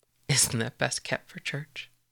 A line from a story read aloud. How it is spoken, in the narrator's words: Percy laughs softly, sweetly